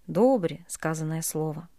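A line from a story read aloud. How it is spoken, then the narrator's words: Quiet elderly voices. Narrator (Russian): самые седые … тихо сказали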